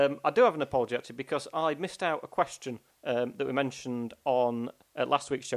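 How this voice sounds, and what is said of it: Usual voice. Nothing is said of it.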